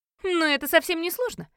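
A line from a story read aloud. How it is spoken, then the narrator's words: Snorting. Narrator (Russian): хмыкнула Марджи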